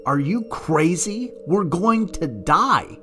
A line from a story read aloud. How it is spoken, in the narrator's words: screamed